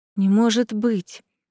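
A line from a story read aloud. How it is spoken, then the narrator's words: Shocked whisper. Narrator (Russian): потрясенно прошептала рядом Марсела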